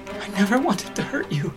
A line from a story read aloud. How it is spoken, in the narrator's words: gasped